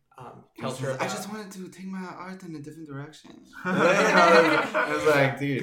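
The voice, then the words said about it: Poor put-on Italian accent. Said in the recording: “we have a horrible Italian accent ... we've got terrible Italian”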